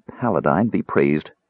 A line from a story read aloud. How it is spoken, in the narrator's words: murmured Elsa